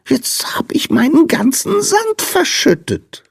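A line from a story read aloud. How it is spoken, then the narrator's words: Whining lament. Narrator (German): jammerte der Sandmann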